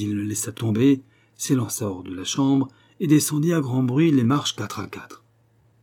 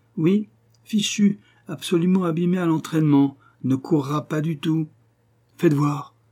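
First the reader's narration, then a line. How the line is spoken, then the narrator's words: Cousin moaning. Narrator (French): gémit mon cousin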